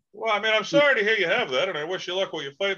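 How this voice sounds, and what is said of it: Boston accent. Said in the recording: “you're clearly from Boston. You can tell by your accent. ... Boston accent.”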